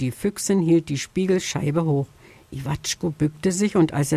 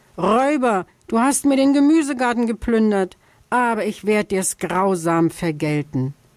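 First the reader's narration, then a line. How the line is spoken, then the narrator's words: Shouted. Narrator (German): schrie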